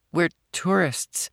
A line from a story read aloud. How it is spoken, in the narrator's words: Amy stammered, her knees going weak